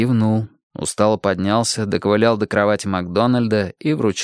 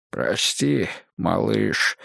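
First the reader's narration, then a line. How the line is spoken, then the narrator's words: Hoarse voice. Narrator (Russian): промолвил он осипшим голосом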